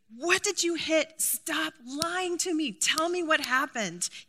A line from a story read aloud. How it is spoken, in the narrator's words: everything inside of me wants to scream